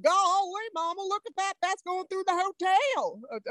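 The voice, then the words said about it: Exaggerated Southern American accent. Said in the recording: “I didn't have quite that bad of a Southern accent, but about that.”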